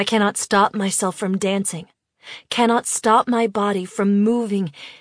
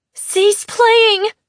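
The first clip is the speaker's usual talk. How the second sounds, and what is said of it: Loud panicked shout, near scream. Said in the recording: “I shout, as loudly as I can, panic giving my voice the edge of a scream.”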